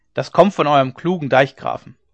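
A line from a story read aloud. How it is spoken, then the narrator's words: Called out. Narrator (German): rief einer von den Gestleuten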